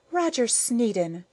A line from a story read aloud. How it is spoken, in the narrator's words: she cried with a hysteria that would have dumbfounded her underlings